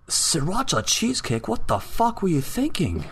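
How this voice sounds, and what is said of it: Poor British accent, Gordon Ramsay impression. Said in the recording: “British accent sounded Asian ... I can't do a British accent”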